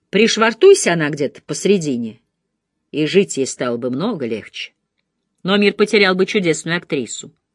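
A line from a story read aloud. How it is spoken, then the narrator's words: Dry. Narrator (Russian): Он сухо добавил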